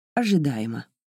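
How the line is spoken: Curt, clipped. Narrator (Russian): отрывисто сказала она

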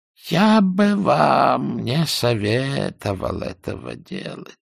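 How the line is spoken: Sad objection, old man. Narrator (Russian): печально возразил старик

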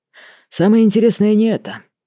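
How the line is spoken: Sigh. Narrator (Russian): вздохнул Лялин

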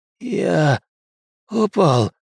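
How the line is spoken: Hoarse rasp. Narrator (Russian): захрипел Кросс

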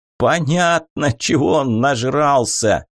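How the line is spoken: Guffawing. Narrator (Russian): захохотал Тришнер

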